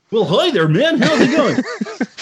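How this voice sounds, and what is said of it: Game show host voice. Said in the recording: “game show voice”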